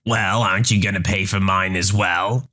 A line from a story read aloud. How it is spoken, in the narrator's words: Karen sneered